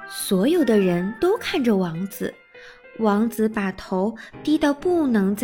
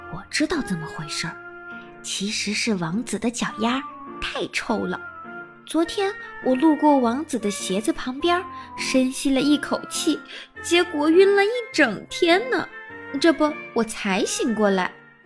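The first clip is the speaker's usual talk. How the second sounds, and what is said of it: Quiet, hushed voice. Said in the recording (Chinese): “小声地”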